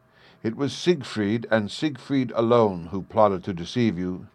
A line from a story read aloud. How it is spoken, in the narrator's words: said